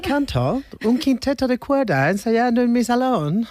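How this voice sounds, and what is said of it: Put-on elderly English woman accent. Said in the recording (Spanish): “¿Ese acento? ... Soy una señora mayor inglesa”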